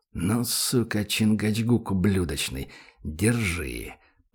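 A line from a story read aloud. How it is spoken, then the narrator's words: Hissed with hatred. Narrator (Russian): прошипел с ненавистью Данил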